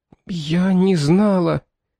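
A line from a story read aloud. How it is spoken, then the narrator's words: Strained, forced words. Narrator (Russian): выдавила она из себя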